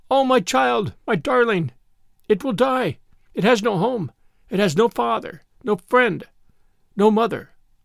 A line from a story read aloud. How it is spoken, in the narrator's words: she cried out